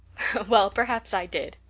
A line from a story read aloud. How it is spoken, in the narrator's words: laughed Rose